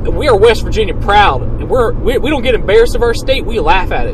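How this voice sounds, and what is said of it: Exaggerated West Virginian accent. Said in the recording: “I'm going to be talking a little bit into that there West Virginian accent. I'm gonna lean into it real hard this episode.”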